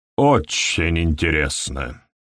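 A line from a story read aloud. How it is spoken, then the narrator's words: Bored voice. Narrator (Russian): сказал Хедли скучным голосом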